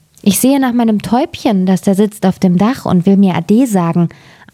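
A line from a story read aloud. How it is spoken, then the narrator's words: Plain. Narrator (German): antwortete Hänsel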